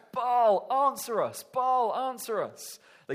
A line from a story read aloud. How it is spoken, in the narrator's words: the prophets of Baal, they shout